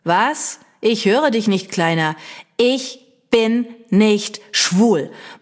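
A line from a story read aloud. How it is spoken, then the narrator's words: Loud bellowing. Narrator (German): brülle ich laut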